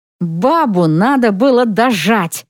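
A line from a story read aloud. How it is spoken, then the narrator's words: Hiss through teeth. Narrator (Russian): шипит сквозь зубы Мертонен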